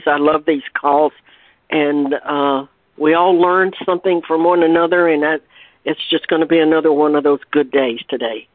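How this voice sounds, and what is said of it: Hoarse voice. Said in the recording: “I'm a bit hoarse today ... fighting or getting over a cold”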